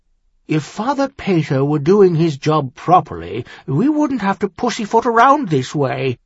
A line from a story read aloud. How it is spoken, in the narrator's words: Clinton grumbled